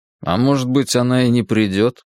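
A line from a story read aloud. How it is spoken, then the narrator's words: Sullen grumble. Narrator (Russian): угрюмо пробурчал я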